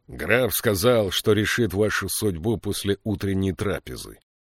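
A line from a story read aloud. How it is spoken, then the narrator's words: Growl. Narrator (Russian): прорычал капитан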